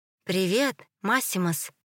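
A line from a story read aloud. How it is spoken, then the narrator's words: Uncertain question. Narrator (Russian): неуверенно поинтересовался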